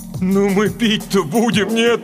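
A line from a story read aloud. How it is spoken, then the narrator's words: Moaning. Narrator (Russian): простонал Валерка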